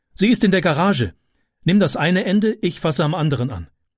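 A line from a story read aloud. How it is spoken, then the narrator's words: Calling. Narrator (German): rief sie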